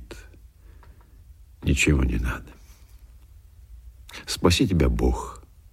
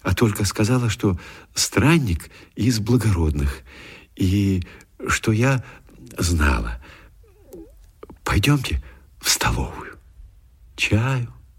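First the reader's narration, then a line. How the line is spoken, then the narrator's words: Timid. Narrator (Russian): начала она робко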